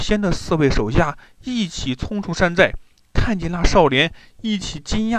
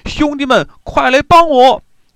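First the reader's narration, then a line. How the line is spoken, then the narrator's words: Panicked shout while fleeing. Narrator (Chinese): 董仙 慌忙就逃，一边跑一边大喊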